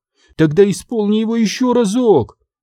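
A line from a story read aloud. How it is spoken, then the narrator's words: Pleading. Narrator (Russian): взмолилась Сабрина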